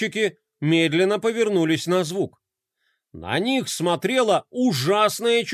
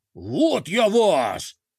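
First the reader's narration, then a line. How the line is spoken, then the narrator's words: Roaring in a general's voice. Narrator (Russian): взревел Минотавр голосом генерала де Кроля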